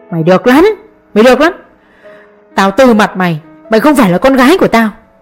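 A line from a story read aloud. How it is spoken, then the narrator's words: Hoarse shouting. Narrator (Vietnamese): Ông hét đến khàn giọng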